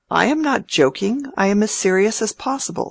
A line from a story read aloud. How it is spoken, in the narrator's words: said the rector, with a provoking little inward laugh